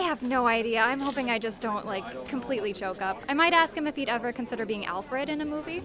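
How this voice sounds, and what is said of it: Usual voice. Nothing is said of it.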